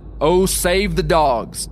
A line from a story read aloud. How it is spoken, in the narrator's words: Just as a large, powerful brown dog, which had furiously attacked the bear, was knocked over, bleeding and howling, Erskine called out